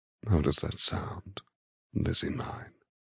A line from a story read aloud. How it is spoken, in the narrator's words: He murmurs thickly